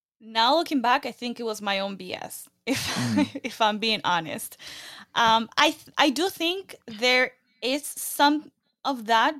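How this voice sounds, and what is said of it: Non-American Latina accent. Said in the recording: “a podcast that is spoken by an American accent ... because of my accent. Also, Latinas”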